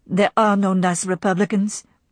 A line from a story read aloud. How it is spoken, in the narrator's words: said Melanie flatly